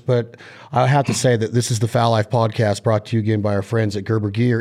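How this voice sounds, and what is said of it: Slightly hoarse voice. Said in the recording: “It's really smoky out here... trying to get my lungs back... if I'm a little hoarse today”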